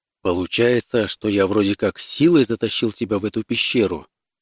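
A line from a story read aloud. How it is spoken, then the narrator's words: Plain. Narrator (Russian): спросил он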